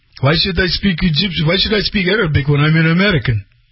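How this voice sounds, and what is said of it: Imitated Arabic accent. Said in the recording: “He's totally Egyptian with a very, you know, Arabic accent.”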